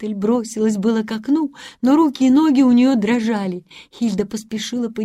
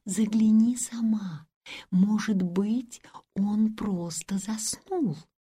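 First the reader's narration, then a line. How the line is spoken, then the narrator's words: Whispered. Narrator (Russian): тихонько позвала Гретель и сказала ей шепотом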